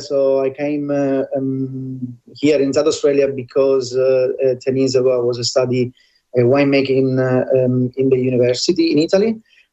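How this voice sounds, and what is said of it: Sicilian Italian accent. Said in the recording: “that gorgeous accent being Sicilian”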